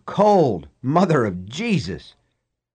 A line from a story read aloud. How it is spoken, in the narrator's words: Deke bellowed